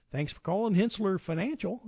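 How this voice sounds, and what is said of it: Imitates an answering machine greeting. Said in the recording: “That was a really good impersonation of the answering machine.”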